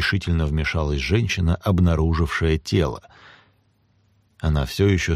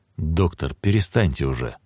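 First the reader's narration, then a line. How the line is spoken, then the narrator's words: Plain. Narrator (Russian): сказал Монтальбано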